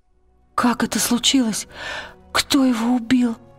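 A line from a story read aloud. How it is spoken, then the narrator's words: Trembling voice. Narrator (Russian): дрожащим голосом сказала Лира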